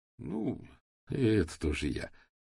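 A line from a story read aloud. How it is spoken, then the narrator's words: Tired, smiling. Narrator (Russian): устало улыбнулся Сашка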